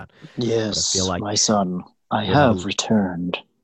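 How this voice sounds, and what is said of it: Deep, dark dramatic creature voice. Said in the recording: “a little bit of that flair, that deepness, that darkness”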